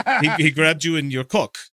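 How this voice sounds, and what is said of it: Put-on Russian accent, broken English. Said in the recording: “the police had to repeat it in their bad English ... I'm doing Russian”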